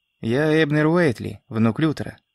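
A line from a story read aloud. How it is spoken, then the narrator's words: Dry, curt reply. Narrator (Russian): сухо ответил Эбнер, не горя желанием вступать в долгую беседу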